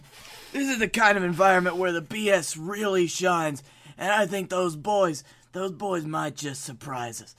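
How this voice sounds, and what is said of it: Strained put-on character voice. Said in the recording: “Doing my voice really, really hurts my own voice.”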